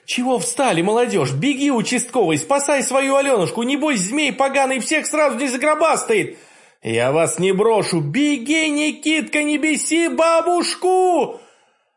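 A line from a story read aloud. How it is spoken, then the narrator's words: Old woman's shout. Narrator (Russian): моя тихая старушка крикнула нам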